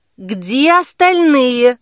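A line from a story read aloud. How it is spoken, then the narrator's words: Loud question. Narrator (Russian): громко спросила Кира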